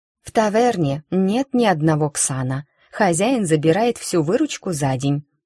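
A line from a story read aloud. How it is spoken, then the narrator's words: Forced calm. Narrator (Russian): пытаясь держаться спокойно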